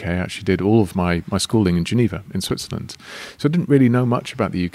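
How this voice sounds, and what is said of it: English accent. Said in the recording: “I know I have an English accent”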